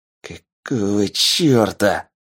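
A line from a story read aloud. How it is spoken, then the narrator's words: Hiss. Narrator (Russian): прошипел один из них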